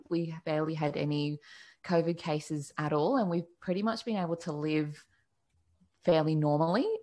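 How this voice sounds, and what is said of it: Australian accent. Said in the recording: “I'm in Australia, if you can't tell by my accent ... It was either that or New Zealand.”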